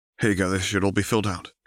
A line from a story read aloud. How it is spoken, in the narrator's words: Harry said